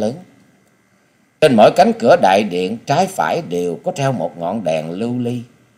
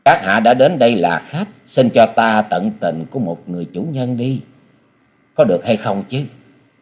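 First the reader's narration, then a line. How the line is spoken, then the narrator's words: Gentle female voice. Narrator (Vietnamese): Nữ hội chủ giọng nhẹ nhàng nói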